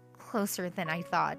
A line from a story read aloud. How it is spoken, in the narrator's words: I muttered to myself